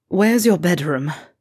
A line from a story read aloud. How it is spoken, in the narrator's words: Draco asked with a gasping moan